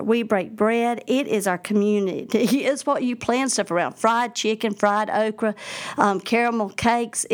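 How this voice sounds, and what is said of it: Strong Southern US accent. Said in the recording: “you've heard this accent. I'm from the South. ... I don't realize how strong of an accent I have”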